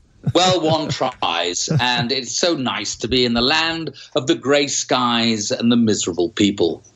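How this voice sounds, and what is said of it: Strong English accent. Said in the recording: “very English again ... your accent's gotten stronger in the week you've been over there”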